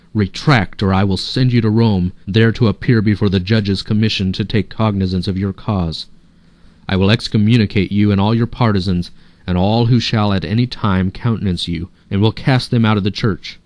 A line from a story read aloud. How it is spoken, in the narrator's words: he lost all self-control and in a rage cried out